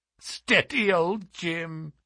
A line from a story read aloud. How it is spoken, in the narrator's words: said she, with a kind of mocking laugh